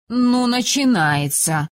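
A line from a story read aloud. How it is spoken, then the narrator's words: Drawn-out, with sigh. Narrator (Russian): протянула Иртея, выразительно вздохнув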